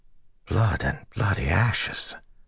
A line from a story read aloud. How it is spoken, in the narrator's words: Matt whispered